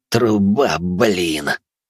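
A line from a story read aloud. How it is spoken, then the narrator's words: Groaning. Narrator (Russian): простонал он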